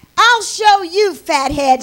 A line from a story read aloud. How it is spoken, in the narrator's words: yells